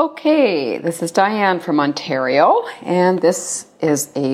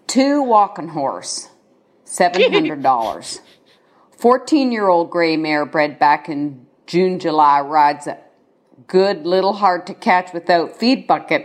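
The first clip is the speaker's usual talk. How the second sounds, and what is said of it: Attempted Mississippi Southern accent. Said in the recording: “I thought I'd do my best attempt at an accent from that region, although I'm not really sure where it is. I think it's Mississippi.”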